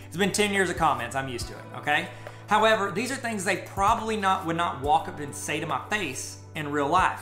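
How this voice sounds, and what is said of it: Southern rural American accent. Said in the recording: “wow, check out that accent, or wow, you got a dumb redneck accent ... They'll say something rude about my accent.”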